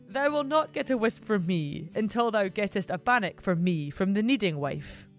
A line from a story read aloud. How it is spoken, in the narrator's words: With a chuckle, the barn gilly replied